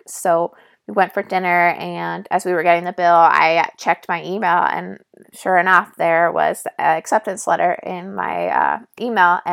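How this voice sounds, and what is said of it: Raspy voice. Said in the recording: “my voice is really raspy, so I'm sorry if that's annoying. I will try my best not to have a raspy voice”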